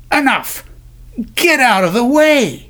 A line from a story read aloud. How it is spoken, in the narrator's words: barked